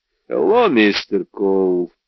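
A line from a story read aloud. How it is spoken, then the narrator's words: Grim, smiling tone. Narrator (Russian): Мрачно улыбнулся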